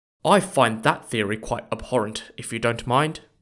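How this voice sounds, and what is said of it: Weak put-on British accent. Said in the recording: “my lame attempt at a British accent”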